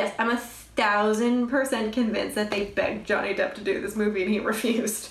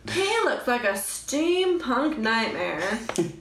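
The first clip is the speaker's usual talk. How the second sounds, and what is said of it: Imitates another person's voice. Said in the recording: “my Tim Gunn impression.”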